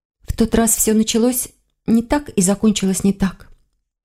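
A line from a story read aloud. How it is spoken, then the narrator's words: Quiet. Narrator (Russian): тихо сказала она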